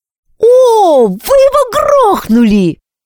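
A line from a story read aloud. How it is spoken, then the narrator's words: Joyful exclamation from behind. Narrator (Russian): радостно воскликнул Кеша у нас за спинами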